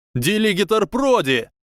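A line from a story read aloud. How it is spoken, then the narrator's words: Shouting. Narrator (Russian): один из близнецов Уизли закричал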